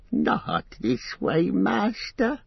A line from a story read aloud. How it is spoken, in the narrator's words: he pleaded